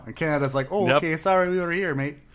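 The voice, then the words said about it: Failed Canadian accent, sounds Minnesotan. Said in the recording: “That's not Canadian. I don't know what accent it is. ... That's more Minnesotan.”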